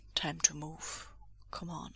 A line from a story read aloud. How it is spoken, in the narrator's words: Bending down close to talk softly, Lan Wangji says